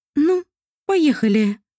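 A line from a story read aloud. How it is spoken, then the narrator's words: Deep breath, then speaking. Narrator (Russian): она глубоко вздохнула и сказала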